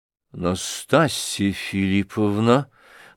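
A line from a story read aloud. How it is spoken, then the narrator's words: Trembling voice. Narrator (Russian): дрожащим голосом проговорил Афанасий Иванович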